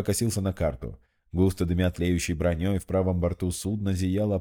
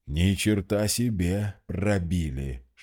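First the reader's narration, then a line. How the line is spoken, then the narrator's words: Shocked groan. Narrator (Russian): шокированно простонал Мозес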